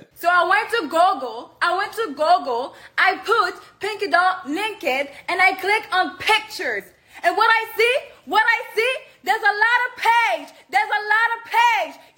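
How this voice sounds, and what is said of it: Montreal Haitian accent. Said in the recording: “the Montreal accent ... she's a Montreal Haitian girl ... MTL's accent's the worst”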